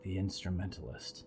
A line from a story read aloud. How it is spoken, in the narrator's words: Percy breathed